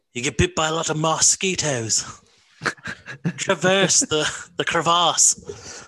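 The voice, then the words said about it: Imitated British adventurer voice. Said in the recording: “I love the way fucking British and Australian people say mosquito... I always use that word when I impersonate Bear Grylls”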